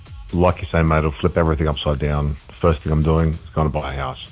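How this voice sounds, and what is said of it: Deep low radio-style voice. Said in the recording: “You got a deep voice there ... Voice for radio, mate.”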